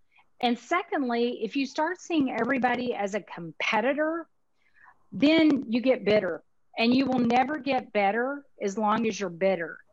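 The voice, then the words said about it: Texas accent. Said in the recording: “My Texas accent got in the way there.”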